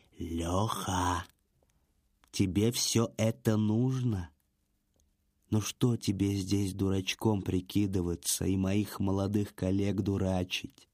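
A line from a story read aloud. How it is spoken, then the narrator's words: Whispered. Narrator (Russian): Экскаватор наклонился к самому уху Лехи и прошептал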